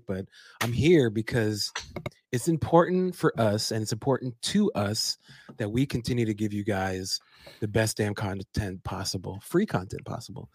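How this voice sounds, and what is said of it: Sick, strained voice. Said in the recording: “I apologize for my voice, y'all... people get sick... I am sick”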